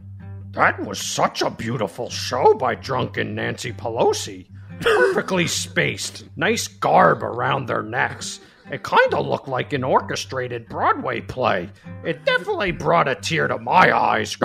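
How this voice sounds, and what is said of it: Cookie Monster-style impersonation voice. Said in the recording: “my Dan impersonation ... It's Cookie Monster.”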